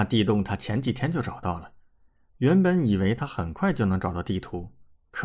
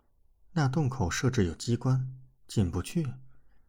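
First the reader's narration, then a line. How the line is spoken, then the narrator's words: Sighing. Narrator (Chinese): 娄欢欢叹口气，说道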